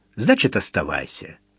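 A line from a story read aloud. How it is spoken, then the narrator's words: Cold, curt. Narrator (Russian): без раздумий холодно бросил Митя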